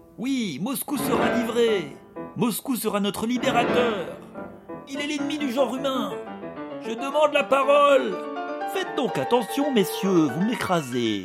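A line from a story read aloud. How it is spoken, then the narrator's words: Many voices shouting. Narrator (French): criait-on à la fois de tous les côtés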